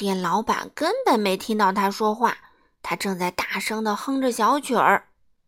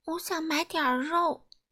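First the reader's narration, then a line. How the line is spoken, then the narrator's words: Quiet, soft. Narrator (Chinese): 他小声地说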